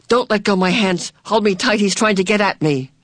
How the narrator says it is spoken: Charles Wallace said suddenly, and his voice held panic

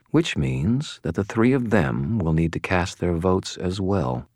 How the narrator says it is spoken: said in a very quiet voice

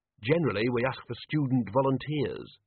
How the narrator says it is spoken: said the dean

